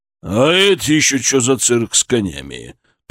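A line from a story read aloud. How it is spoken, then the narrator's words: Menacing growl. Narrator (Russian): прорычал он, и его голос не предвещал ничего хорошего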